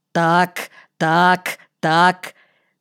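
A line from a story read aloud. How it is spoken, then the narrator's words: Repeated murmuring. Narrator (Russian): приговаривал хозяин аттракциона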